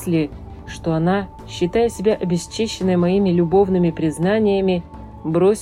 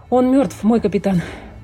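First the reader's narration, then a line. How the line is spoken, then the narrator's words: Breathless exhale. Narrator (Russian): выдохнул матрос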